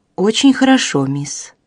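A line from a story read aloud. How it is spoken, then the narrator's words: Calm child. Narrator (Russian): спокойно отвечала девочка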